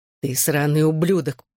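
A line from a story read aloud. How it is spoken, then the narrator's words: Furious snarl. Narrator (Russian): прорычал брат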